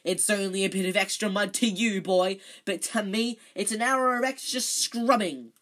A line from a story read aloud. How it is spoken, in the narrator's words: shouted Filch